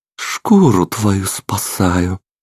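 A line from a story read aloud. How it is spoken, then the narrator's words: Quiet reply. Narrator (Russian): так же тихо ответил сын Гранда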